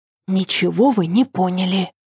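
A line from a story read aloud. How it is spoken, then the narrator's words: Whispering. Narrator (Russian): зашептала Ася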